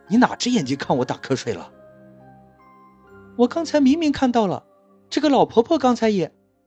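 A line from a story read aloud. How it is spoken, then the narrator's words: Loud, embarrassed anger. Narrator (Chinese): 司机恼羞成怒，大声道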